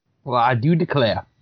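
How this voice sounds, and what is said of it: Put-on Southern American accent. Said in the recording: “a Southern accent”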